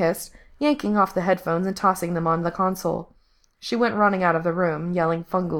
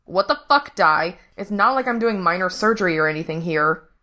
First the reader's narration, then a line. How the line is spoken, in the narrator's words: Frank snapped